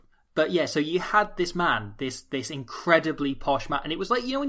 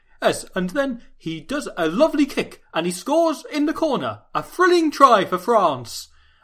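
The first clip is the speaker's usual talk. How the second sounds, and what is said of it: Attempted posh English voice. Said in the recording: “I can't even do a posh voice. I'm not I'm the wrong level of it.”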